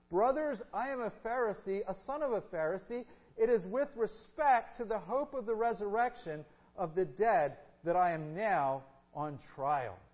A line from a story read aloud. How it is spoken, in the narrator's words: he cried out in the council